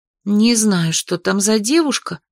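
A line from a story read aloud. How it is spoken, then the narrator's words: Stubborn maid muttering. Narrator (Russian): упрямо пробормотала горничная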